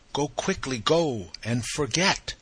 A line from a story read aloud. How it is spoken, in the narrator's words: the poppy on her breast, with drooping head uplifted, softly cried